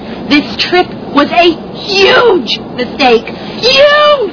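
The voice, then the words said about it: Shouting loudly. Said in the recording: “Please, stop shouting.”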